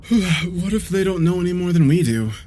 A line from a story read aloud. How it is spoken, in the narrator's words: I asked, swallowing a yawn